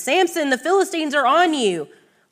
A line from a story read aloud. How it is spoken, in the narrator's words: she called out to him